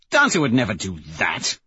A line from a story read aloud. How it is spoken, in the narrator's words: Severo says with a sneer